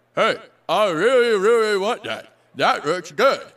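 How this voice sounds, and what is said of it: Impersonation of an American. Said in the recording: “my impersonation of American”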